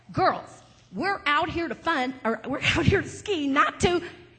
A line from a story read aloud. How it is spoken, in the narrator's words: he got close to us and he yelled